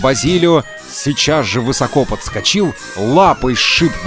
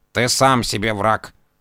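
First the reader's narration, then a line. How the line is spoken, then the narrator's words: Grumbling cat. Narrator (Russian): проворчал кот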